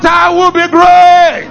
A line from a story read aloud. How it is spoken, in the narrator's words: Shout